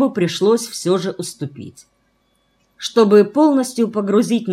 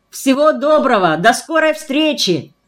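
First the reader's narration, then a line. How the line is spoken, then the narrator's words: Excited shout. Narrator (Russian): взволнованно крикнул он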